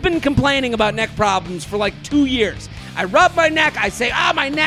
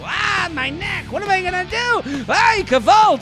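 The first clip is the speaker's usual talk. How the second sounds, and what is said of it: Old Jewish man complaining voice. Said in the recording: “I sound like an old Jew.”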